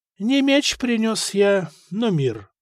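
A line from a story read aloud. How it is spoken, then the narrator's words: Calm reply. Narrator (Russian): спокойно ответил епископ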